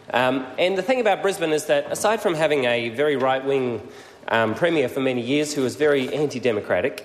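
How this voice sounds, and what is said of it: Australian accent. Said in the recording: “I was born in Brisbane, if my accent doesn't give me away”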